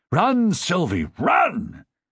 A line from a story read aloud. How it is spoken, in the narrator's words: Ned ... yelled